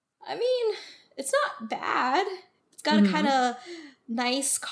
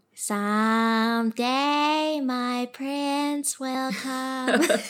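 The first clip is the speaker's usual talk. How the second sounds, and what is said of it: Sings in Snow White character voice. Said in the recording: “That's a pretty credible impression. ... There's my Snow White impression.”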